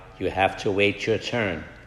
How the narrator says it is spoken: Calmly again, the woman replied

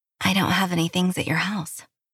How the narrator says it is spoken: I whispered

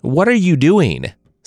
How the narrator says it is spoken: Sandy shouted

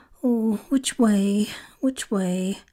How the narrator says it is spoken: said anxiously to herself

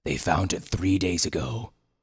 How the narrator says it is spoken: he told them grimly

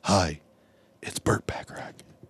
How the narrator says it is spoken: the whispery voice said

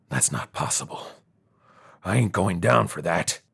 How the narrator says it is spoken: Jimmy said quietly this time

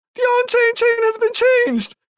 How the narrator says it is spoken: cries another

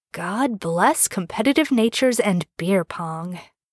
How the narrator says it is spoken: Jared whispers

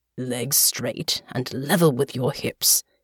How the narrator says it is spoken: murmured

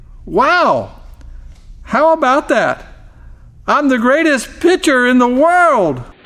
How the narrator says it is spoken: he exclaimed

